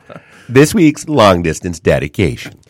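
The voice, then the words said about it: Gravelly announcer voice, sounds Canadian. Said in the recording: “I was gonna go Casey Kasem ... You sounded Canadian. ... I got too much gravel, too much temple bar in my throat”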